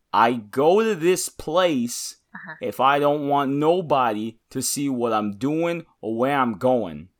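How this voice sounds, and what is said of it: Put-on East Coast tough-guy accent. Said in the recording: “my New Capennese accent ... don't nobody come after me saying you're from New York, New Jersey, Boston ... This is a New Capenna accent”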